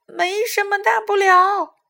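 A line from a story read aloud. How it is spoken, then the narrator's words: Sudden loud cry. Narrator (Chinese): 又有一只猫头鹰突然大叫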